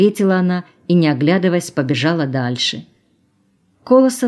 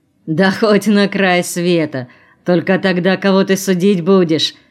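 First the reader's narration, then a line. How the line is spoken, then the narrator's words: Hoarse laugh. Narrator (Russian): засмеялся хрипло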